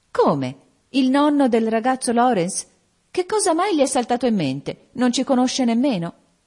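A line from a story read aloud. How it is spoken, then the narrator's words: Exclaimed. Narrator (Italian): esclamò Meg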